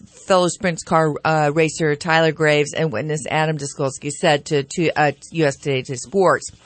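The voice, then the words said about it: Slightly slurred speech. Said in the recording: “I feel like I'm slurring.”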